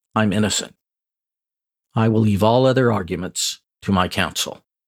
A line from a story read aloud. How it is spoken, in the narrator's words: in a confident voice said